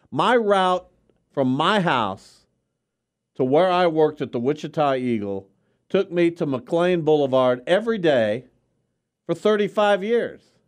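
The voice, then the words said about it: Yelling, loud angry voice. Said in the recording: “Why are you yelling? ... That's loud to me. I can't imagine if I had my headset on.”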